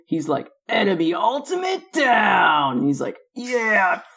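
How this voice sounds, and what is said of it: Imitates a satisfied game character voice. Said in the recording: “I love his voice pack when he says enemy ultimate down. He sounds so fucking satisfied ... you sounded like a professional right there”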